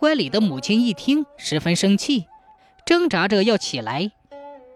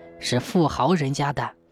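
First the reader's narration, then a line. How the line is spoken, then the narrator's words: Low mutter. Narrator (Chinese): 铁拐李低声嘟囔道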